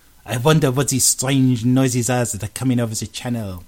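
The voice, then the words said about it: Attempted French accent, sounds Welsh. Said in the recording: “That was more Welsh, to be honest, but I'm working on my accents.”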